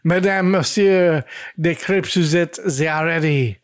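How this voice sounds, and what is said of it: Put-on French accent. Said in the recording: “says with a French accent”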